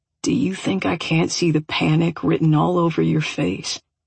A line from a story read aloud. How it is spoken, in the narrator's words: He murmured